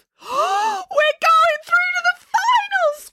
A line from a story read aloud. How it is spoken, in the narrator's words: squealed Nanny Ann